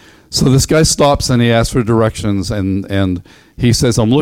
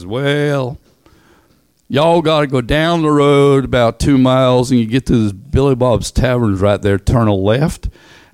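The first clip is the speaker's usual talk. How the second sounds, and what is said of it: Put-on Tennessee Southern accent. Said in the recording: “Tennessee ... it's got the best accent next to Arkansas ... an old timer”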